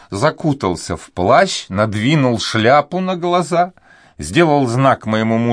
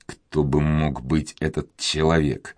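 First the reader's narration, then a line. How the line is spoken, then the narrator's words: Whisper. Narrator (Russian): прошептал Филипп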